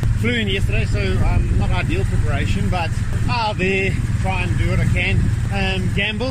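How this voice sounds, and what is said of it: Out of breath. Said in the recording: “I'm out of breath. I'm not as fit as I was.”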